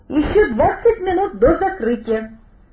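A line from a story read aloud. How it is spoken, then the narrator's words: Cheerful speech. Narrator (Russian): весело сказал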